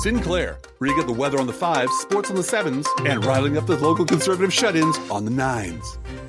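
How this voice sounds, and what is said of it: Local TV news announcer voice. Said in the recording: “in your best Sinclair announcer voice”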